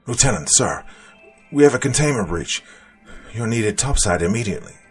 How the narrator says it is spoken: one of the more frazzled soldiers shouted through his mask

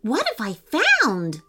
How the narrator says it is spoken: Lewis exclaimed

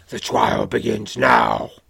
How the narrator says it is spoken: snarls

